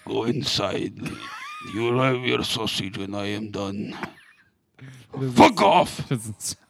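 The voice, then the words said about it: Put-on Russian accent. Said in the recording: “My father was a Russian man. ... I was going to say he was Russian.”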